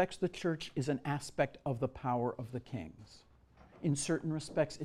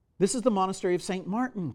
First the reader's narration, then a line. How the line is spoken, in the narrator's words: cried the monks